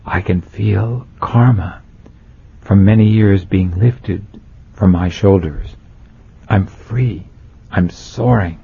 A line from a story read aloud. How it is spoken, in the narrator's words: he continued, in almost a whisper